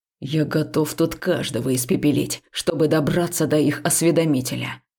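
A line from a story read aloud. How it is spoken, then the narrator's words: Furious growl. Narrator (Russian): рычал Векс, которого уже так пробрало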